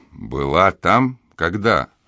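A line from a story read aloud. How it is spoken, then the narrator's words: Plain. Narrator (Russian): спросил сын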